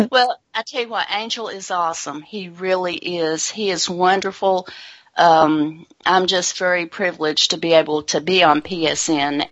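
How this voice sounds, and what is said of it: North Carolina Southern US accent. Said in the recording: “obviously you're not from Seattle. We can hear that. ... you might have been told by my accent. ... I am from North Carolina”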